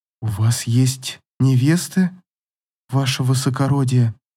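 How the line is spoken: Strained, barely audible. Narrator (Russian): Еле выдавила из себя Ивейна

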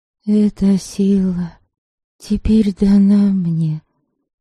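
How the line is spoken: Soft voice blending with rain. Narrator (Russian): негромко произнесла Девляна, и ее голос казался неотделимой частью дождя

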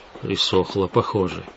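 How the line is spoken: Muttered. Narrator (Russian): Пробормотал

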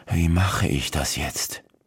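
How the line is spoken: Muttering. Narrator (German): Colbert murmelte

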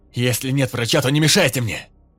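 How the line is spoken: Loud, addressing crowd. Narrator (Russian): Добавил он громко в толпу

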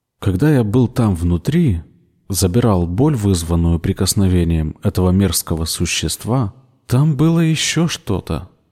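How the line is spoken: Quiet. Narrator (Russian): тихо сказал Ричард

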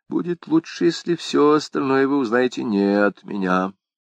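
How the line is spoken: Mysterious whisper. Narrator (Russian): С таинственным видом граф Рекс прошептал

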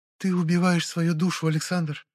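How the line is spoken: Sad pronouncement. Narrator (Russian): печально изрекла хранительница лесов

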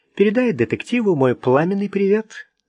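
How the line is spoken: Snide. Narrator (Russian): ехидно сказала Ренни

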